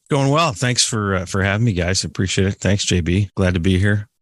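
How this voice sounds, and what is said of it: Polished podcast-style speaking voice. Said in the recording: “Nice podcast voice.”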